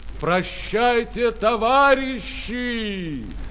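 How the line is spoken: Loud shout. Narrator (Russian): Фрунзе ... громко крикнул

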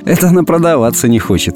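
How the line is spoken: Laughing, thinking aloud. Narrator (Russian): посмеялась я и вслух подумала

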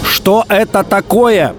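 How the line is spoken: Shouting into phone. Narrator (Russian): кричал в трубку Спиридонов

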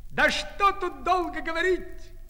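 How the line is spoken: Emboldened shout. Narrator (Russian): кричал расхрабившийся окончательно заяц

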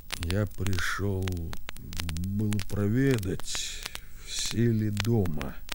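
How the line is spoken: Quiet, halting. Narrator (Russian): Тихо отвечал Архип, запинаясь

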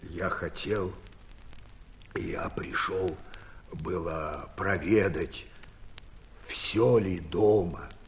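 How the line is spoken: Quiet, stammering. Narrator (Russian): тихо отвечал Архип, запинаясь

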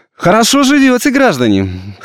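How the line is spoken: Loud and cheerful. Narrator (Russian): сказал он громко и весело

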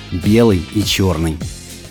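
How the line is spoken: Barely audible whisper. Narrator (Russian): Он едва слышно шепчет

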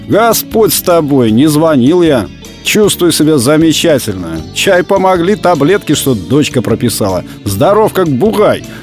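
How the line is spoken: Laughing. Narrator (Russian): посмеялся он

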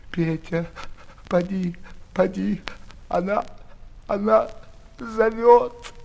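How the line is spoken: Sobbing like a child. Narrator (Russian): он, рыдая, как дитя

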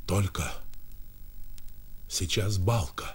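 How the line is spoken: Whisper. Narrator (Russian): прошептал Сережа

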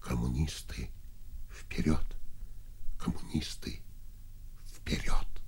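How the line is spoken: Barely audible young man. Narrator (Russian): еле слышно сказал молодой инженер

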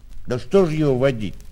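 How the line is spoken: Angry hasty interruption. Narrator (Russian): сердито и поспешно перебил Тихон

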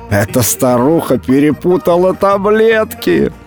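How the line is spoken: Laughing speech. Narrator (Russian): Смеялась она, хохоча над храпом Матильды

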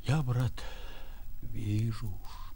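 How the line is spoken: Quiet. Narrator (Russian): тихонько говорил он

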